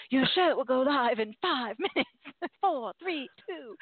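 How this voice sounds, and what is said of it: Imitated robot voice with fake accent. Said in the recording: “this robot keeps popping on with this dumb fake accent saying”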